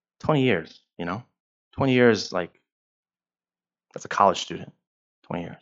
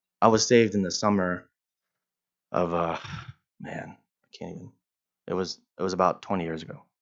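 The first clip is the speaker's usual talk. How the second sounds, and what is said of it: Voice cracking with emotion. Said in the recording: “my voice just cracked”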